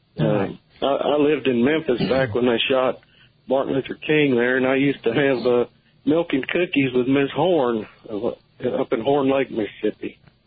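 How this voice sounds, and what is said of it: Southern American accent. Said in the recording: “I love your accent. You have a great southern accent”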